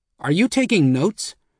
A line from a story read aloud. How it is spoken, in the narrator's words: Dimon snapped